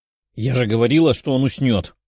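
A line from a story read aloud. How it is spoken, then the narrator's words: Displeased dragon-girl's growl. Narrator (Russian): прорычала недовольная девушка-дракон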